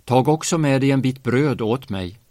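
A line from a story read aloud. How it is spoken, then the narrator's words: Calling after someone. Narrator (Swedish): ropade han efter henne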